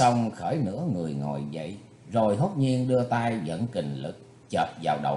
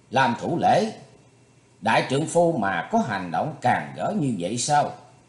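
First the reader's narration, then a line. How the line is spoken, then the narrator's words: Stern rebuking shout. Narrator (Vietnamese): Thủy Tuấn Hạo nghiêm giọng quát lên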